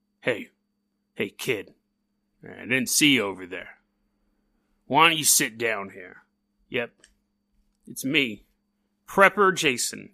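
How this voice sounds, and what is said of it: Put-on character voice. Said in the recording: “I'm gonna stop doing the voice.”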